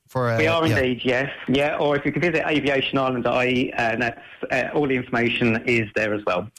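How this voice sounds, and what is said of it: Strong West of Ireland accent. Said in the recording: “you've got a very strong West of Ireland accent”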